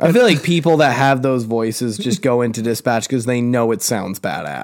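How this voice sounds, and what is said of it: Usual voice. Nothing is said of it.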